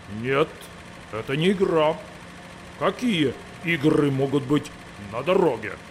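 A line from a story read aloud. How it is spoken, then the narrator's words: Menacing tractor voice. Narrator (Russian): Сказал грозно трактор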